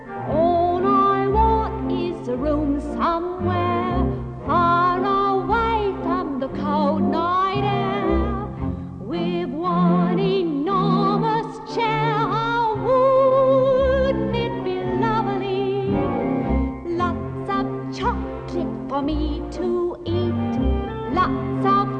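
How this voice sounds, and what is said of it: Sung Cockney accent. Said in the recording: “a perfect Cockney accent”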